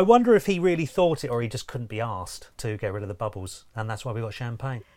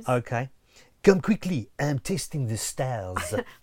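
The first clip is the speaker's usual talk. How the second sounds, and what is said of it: Put-on French accent. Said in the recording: “With a French accent, please.”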